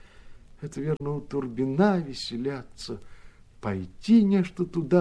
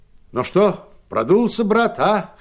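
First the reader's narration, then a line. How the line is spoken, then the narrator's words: Shouting. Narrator (Russian): крикнул он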